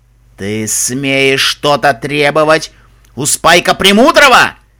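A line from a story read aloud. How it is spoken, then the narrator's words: Dragon roaring. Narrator (Russian): Взревел черный дракон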